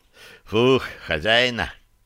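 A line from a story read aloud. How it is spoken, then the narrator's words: Relieved exhale, small one. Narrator (Russian): облегченно выдохнул мелкий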